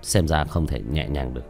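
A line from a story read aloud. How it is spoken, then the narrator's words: Muttered. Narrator (Vietnamese): Tiểu Thất nhướng mày lẩm bẩm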